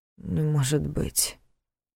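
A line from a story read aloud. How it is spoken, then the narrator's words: Muttered. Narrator (Russian): пробормотал он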